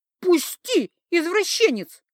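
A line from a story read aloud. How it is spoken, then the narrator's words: Shriek. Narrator (Russian): взвизгнула я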